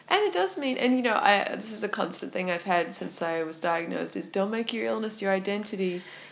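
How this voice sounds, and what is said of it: Accent that sounds somewhat American. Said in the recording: “I already have to explain my accent about three times a day ... Why is she trying to sound like she's American?”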